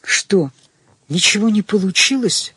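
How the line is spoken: Whispered question. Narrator (Russian): шепотом спросила Таня в коридоре

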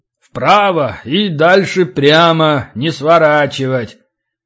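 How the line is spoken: Deep bass voice. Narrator (Russian): Лай пробасил

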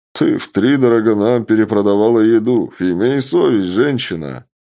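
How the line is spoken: Big man laughing. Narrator (Russian): рассмеялся здоровяк

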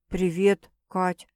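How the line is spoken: Quiet voice. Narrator (Russian): тихо произносит он

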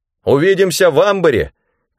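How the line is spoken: Shout. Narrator (Russian): крикнул Рэндом

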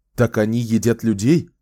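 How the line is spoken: Exclaiming. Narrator (Russian): воскликнул Ричард

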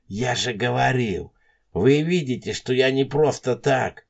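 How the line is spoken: Pitiful moan. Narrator (Russian): Кажется, еще более жалостливо простонал

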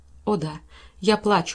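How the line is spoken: Tearful exclamation. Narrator (Russian): воскликнула Эйлин сквозь слезы

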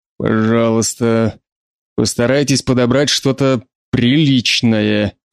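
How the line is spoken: Growl. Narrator (Russian): прорычал

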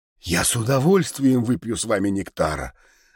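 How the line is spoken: Forced out, reluctant. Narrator (Russian): выдавил наконец

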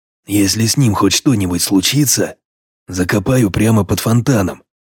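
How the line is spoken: Quiet growl. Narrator (Russian): тихо прорычал я

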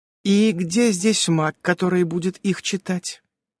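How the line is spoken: Pleasant inquiring voice. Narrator (Russian): осведомилась приятным голосом свежеокрашенная шаманша

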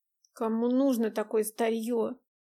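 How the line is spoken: Grumbling. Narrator (Russian): буркнула Настя

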